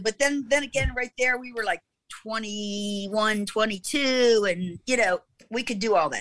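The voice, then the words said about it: Baltimore accent. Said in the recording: “you still have that Baltimore accent. Apparently you're never going to lose that.”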